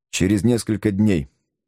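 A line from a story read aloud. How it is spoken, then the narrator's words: Plain. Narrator (Russian): ответил Барбекен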